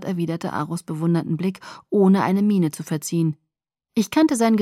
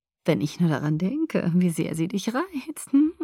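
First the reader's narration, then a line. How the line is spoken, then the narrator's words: Giggling. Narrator (German): Aro kicherte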